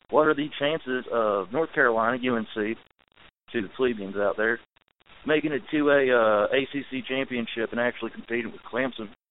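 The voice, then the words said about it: North Carolina accent. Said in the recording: “Love the accent ... Wow, that's a great accent. North Carolina.”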